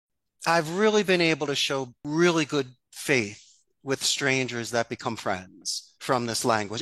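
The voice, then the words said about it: Strong Philadelphia accent. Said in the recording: “My Philadelphia accent is so strong”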